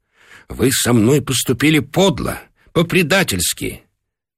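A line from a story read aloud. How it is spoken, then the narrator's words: Angry speech. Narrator (Russian): сердито говорил ему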